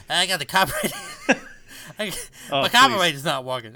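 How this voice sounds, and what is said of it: Put-on Boston accent. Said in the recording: “was that your Boston accent? That was fantastic.”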